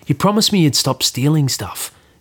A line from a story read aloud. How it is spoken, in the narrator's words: Nash says quietly